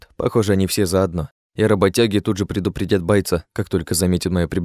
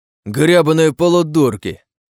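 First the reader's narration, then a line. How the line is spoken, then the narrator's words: Soldier roaring. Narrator (Russian): Взревел боец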